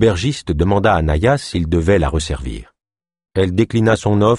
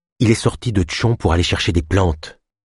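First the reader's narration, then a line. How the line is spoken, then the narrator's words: Low voice. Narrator (French): ajouta-t-elle à voix basse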